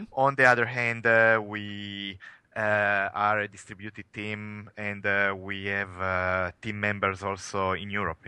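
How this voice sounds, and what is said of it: Italian accent. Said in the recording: “as you can probably tell from my accent, I am coming from Italy”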